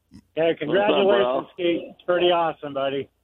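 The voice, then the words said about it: Put-on radio announcer voice. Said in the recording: “I got my radio voice going.”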